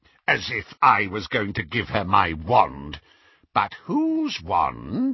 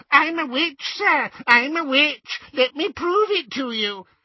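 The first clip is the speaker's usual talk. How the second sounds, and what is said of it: Squeaky mocking impersonation. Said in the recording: “he said in a squeaky impersonation”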